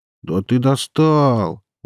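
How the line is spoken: Weary drawl. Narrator (Russian): утомленным голосом снова протянул вокалист

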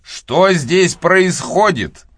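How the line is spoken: Angry. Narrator (Russian): сердито произнес мистер Талливер

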